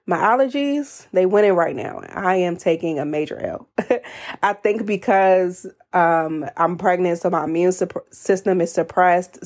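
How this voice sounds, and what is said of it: Congested, stuffy-nosed voice. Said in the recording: “I am congested and you may be able to hear that in my voice.”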